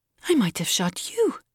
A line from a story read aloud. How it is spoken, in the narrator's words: she exclaimed